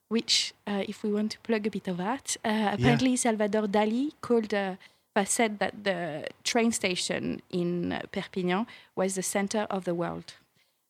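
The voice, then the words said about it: French accent. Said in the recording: “I have an accent. ... I'm French ... I've got a weird accent to American ears. ... I feel like you are very French. ... You have a beautiful voice, too.”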